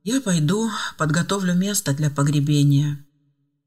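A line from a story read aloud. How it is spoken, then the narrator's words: Heavy sigh, then speaking. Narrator (Russian): Тяжело вздохнув, он промолвил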